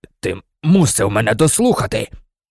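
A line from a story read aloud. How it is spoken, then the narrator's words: Hoarse rasp. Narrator (Ukrainian): прохрипів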